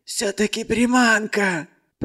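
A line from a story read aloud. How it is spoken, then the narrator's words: Hoarse wheeze, gang leader. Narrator (Russian): Просипел главарь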